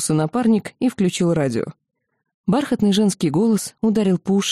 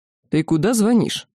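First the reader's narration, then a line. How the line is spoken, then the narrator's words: Plain. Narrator (Russian): спросил Рок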